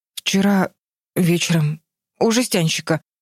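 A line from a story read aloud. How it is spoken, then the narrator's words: Stammering. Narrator (Russian): запинаясь, выговорил Джерри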